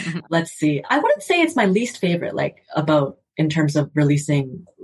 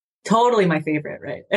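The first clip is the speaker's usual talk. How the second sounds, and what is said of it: Sarcastic tone. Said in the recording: “Being sarcastic. Just in case sarcasm doesn't translate in audio.”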